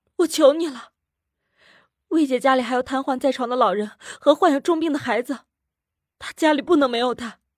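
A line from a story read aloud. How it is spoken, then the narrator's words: Hoarse, crying woman. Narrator (Chinese): 女人哭着 声音嘶哑的说道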